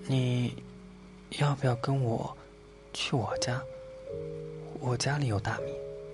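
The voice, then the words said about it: Soft, quiet whispered voice. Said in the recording (Chinese): “小刺猬小声的问老鼠”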